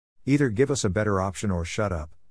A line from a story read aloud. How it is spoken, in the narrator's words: the Lord Programmer said flatly